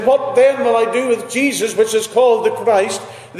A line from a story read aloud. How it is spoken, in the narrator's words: they cried the more, saying